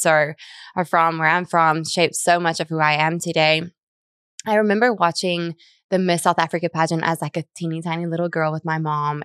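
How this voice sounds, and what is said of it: South African accent. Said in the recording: “in South Africa, where I'm from, if you hear the messed up accent”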